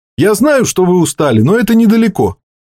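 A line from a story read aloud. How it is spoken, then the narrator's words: Cheerful. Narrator (Russian): Айкл радостно улыбнулся Пойли и сказал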